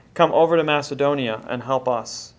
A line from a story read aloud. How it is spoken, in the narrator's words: A man of Macedonia pleaded with him, saying